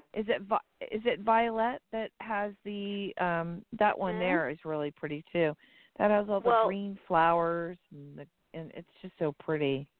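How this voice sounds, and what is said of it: Strained, failing voice. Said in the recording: “my voice is going now.”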